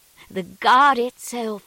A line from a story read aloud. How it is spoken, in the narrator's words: cried the woman